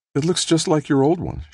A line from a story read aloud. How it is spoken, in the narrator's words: she said, smiling happily